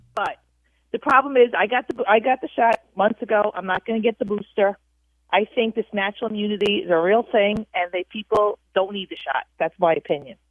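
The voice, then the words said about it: Noticeable regional accent. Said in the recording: “Appreciate you, and your accent.”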